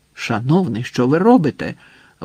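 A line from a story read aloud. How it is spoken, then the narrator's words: Exclaimed. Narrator (Ukrainian): вигукнув Хасан, коли його схопили дуже руки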